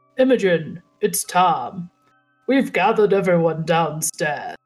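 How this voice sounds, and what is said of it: Deep put-on Southern accent. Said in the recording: “I have to do another southern accent. Hold on. This one's deeper.”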